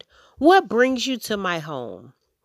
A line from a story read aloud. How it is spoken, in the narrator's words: Amu exclaimed